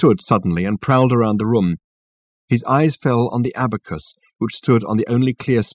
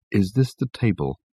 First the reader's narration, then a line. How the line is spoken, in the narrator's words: he asked Richard in a low voice